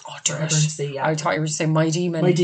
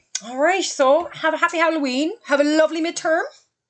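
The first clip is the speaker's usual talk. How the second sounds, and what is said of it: Teacher voice. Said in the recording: “that's my teacher voice.”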